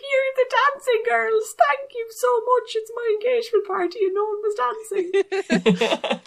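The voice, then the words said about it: Put-on Irish Cork-sounding accent. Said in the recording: “That's probably the wrong accent, by the way... it's still probably the wrong accent. That sounds a bit Cork.”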